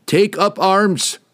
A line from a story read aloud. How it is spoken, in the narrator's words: he cried to the crew